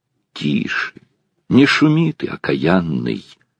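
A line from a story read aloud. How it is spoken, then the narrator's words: Threatening whisper. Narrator (Russian): с угрозой зашептала она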